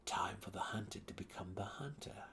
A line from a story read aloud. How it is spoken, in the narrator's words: he purred to the great cat